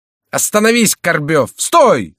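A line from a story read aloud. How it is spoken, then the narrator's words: Shout. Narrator (Russian): закричал ему Шико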